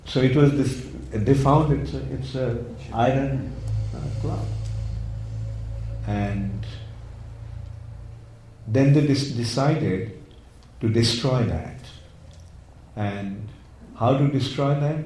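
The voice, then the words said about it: Indian accent. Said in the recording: “I have my Indian accent.”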